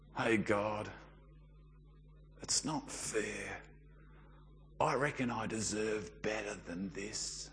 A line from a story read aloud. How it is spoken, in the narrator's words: whisper under your breath